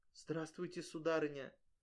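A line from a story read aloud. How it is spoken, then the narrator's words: Humble whisper. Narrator (Russian): собрав все свое мужество, смиренно шепнула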